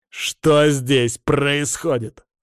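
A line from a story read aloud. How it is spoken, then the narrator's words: Growling. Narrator (Russian): рыкнул я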